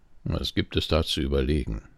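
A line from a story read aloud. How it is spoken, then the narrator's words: Dry reply. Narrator (German): erwiderte Karl mit trockener Stimme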